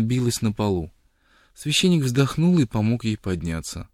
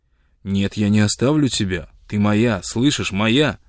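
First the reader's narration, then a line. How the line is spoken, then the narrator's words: Growled. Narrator (Russian): он зарычал на священника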